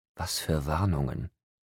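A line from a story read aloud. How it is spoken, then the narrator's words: Whispering. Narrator (German): flüsterte ich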